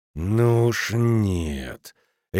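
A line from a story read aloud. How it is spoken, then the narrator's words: Decisive growl. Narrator (Russian): решительно прорычал он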